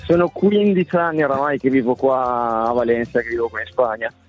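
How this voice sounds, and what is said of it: Italian with slight acquired Spanish accent. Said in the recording (Italian): “hai acquisito un attimo di accento ... Si sente proprio. Si sente tutto.”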